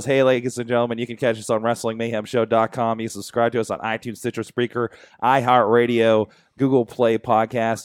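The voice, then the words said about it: Hoarse, deep radio-like voice. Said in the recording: “It's an official radio voice... My throat is jacked up voice.”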